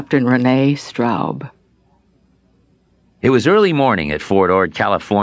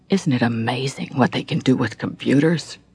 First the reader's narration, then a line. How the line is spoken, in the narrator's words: Our sergeant major overheard and quietly remarked